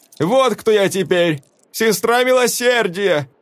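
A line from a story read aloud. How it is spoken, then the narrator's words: Shouting to crowd. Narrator (Russian): крикнула она в толпу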